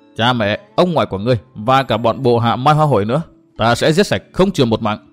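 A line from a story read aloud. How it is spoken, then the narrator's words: Mocking laugh. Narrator (Vietnamese): Từ Mã Minh cười mỉa mai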